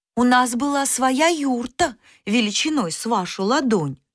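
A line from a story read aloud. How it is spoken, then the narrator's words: Plain. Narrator (Russian): сказали мыши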